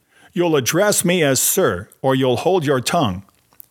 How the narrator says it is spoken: Nathan declared in a loud voice

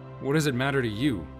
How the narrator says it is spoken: he asked, more bitterly than he'd meant to

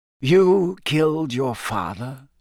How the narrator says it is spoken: Dumbledore said in the same soft voice

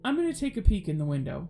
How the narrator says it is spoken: he said

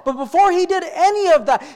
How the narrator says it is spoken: he cried out to the God of heaven and said

